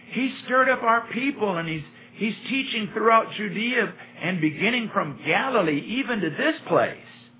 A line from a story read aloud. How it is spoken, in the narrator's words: they shouted